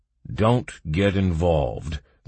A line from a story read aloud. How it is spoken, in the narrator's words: grimly advised the last guard